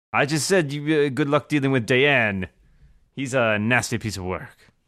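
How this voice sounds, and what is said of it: Speaks with a put-on accent. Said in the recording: “It's not just my accent... Pretty sure it's just your accent.”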